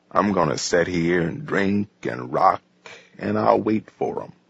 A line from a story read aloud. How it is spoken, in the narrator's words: he said coolly